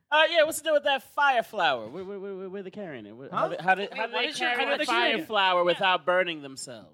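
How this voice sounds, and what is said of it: Stand-up comedian impression. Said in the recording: “Was that the start to a Jerry Seinfeld stand-up bit? ... That was your Jerry Seinfeld impression?”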